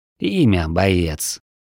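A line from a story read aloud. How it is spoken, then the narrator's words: Tired question. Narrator (Russian): устало спросил мастер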